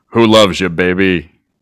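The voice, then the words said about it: Imitates another person's voice. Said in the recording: “do a Telesivalis impression ... I can do the one everybody can do”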